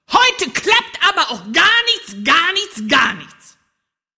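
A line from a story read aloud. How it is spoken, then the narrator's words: Bellowing. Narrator (German): Und dann brüllte er noch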